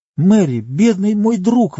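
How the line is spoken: Exclaimed. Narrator (Russian): воскликнул Пипин

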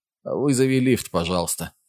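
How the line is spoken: Hoarse, dry request. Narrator (Russian): попросил Аарон хриплым, сухим голосом

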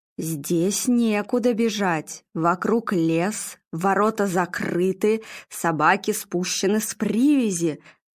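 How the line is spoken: Ominous voice. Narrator (Russian): зловещим голосом произнесла Нина

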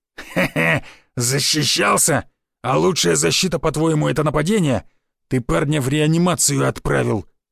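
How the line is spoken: Angry growl, feigned. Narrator (Russian): зло прорычал Рыло, но чувствовалось в его словах фальшь

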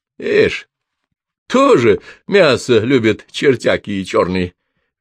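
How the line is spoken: Good-natured laughing. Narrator (Russian): рассмеялся охотник, и в его словах не слышалось ничего оскорбительного

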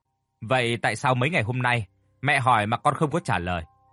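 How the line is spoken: Slightly raised voice. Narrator (Vietnamese): bà đã lên giọng hơi nhẹ

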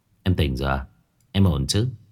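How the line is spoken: Glad, relieved. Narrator (Vietnamese): Phong Đình vui mừng nói

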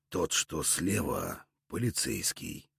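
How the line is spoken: Quiet. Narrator (Russian): негромко сообщил воятель

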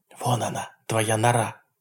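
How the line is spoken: Whisper. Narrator (Russian): прошептал Эйб

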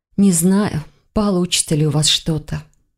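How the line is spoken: Sigh. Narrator (Russian): вздохнула она

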